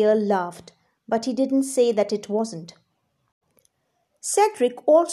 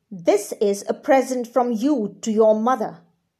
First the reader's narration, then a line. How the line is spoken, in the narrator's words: the Earl snapped